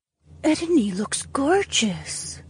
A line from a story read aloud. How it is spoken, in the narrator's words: whispered